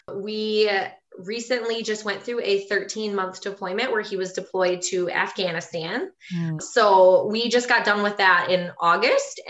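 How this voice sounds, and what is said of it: Wisconsin accent. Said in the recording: “I'm from Wisconsin, as you might be able to tell from my accent.”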